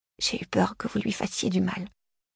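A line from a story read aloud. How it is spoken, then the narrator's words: Murmur. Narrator (French): murmura Charla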